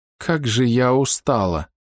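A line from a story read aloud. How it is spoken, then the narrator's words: Groaning. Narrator (Russian): простонала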